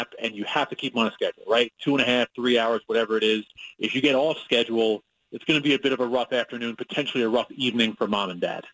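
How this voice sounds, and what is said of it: New York accent. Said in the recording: “I'm still told that I do have the New York accent”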